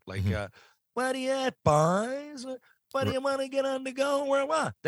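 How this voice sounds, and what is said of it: Slow drawling Newfoundland townie voice. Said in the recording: “I can do a townie now because we used to imitate a guy ... my Letterkenny scene is a lot slower. There's more of a drawl to it ... He's who I'm imitating, but I just sped it up.”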